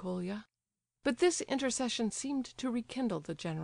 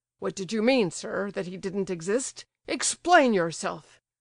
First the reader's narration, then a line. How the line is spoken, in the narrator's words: he repeated angrily